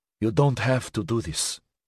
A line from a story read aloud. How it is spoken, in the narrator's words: she said softly